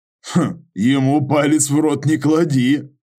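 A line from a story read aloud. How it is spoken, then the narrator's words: Laughing. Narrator (Russian): рассмеялся Юра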